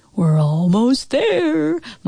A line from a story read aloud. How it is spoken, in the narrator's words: my dad called out in kind of a scary voice